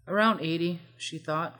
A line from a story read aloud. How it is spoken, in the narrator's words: Cloud replied